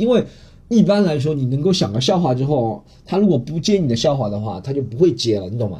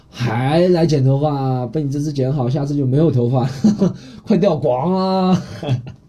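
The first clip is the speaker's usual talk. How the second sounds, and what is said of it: Southwestern Chinese accent. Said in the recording (Chinese): “我怎么一下子出来那种西南口音？”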